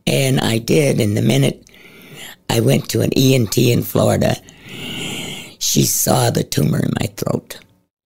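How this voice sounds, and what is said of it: Scratchy, raspy voice. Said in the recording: “my voice is a little scratchy”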